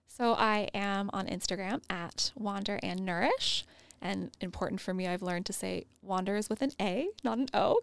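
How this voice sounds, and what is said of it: Speaks with an accent. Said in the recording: “because of my accent.”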